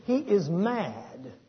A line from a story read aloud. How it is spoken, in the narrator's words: exclaiming